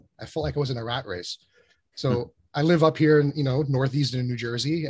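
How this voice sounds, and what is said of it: New York accent. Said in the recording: “I don't talk funny. You listen funny. ... I had that New York accent.”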